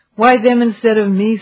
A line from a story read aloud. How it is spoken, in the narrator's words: sighed Sam